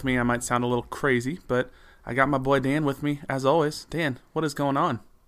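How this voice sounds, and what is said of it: Rough, congested voice. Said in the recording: “I have a little bit of a cold ... it's a little rough”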